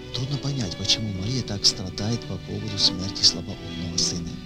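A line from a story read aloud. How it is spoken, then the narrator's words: Whispered. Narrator (Russian): На похоронах одна из знакомых женщин шепотом сказала своей соседке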